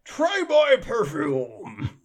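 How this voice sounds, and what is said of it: Imitates the Venom character voice. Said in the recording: “I was reading it in Venom voice ... Just doing his Venom voice.”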